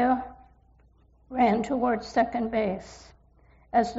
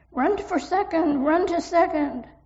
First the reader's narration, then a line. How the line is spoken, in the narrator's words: Everyone yelled